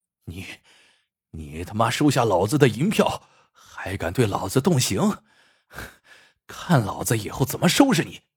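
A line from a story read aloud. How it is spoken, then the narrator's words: Furious. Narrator (Chinese): 县太爷大怒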